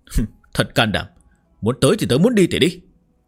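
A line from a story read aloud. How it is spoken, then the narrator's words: Screaming. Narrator (Vietnamese): Mộc Tiêu Man gào lên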